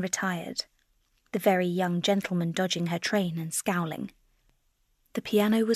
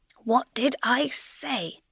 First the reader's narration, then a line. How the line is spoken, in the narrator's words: shouted the Herr Professor under cover of tumultuous applause